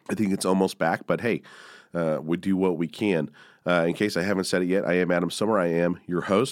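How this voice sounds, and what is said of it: Slightly rough, congested voice. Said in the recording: “I'm coming off a little bit of a sinus infection, so excuse the voice.”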